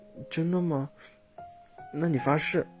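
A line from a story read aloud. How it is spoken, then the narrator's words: Sobbing, timid. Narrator (Chinese): 小兔子打着哭嗝，诺诺的说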